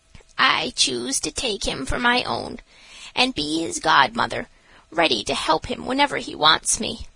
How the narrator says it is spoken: this she said in a mysterious whisper

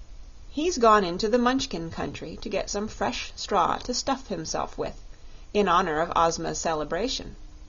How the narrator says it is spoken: replied the maid

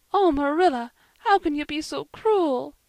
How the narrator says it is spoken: sobbed Anne

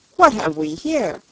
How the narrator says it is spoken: asked the queen sharply

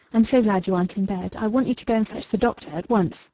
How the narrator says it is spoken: She replied, speaking quickly and eagerly

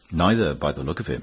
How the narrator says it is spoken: replied the other

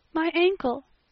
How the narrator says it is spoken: gasped Anne

